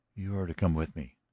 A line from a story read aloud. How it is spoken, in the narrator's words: said the hotel keeper softly